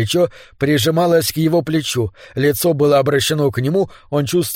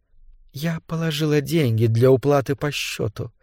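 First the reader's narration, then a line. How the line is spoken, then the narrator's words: Conspiratorial whisper. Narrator (Russian): с видом заговорщицы прошептала она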